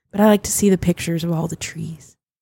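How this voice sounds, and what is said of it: Raspy voice. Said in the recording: “Why am I getting all raspy? ... She's getting her NPR voice.”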